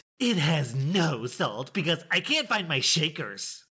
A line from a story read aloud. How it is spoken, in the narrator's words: Karen hissed